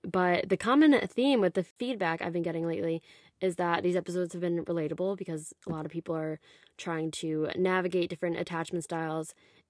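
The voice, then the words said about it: Lower-pitched voice than usual. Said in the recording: “My voice is a little lower today”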